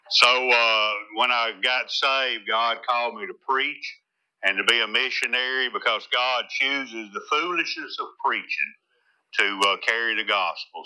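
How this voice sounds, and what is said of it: Strong rural Tennessee accent. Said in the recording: “they don't understand my accent over there ... Go, what did he say? I don't understand it ... a hillbilly from Tennessee”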